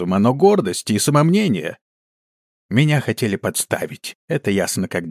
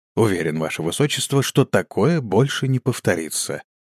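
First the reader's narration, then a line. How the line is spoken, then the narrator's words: Calm statement. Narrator (Russian): спокойно заявил Лермонруил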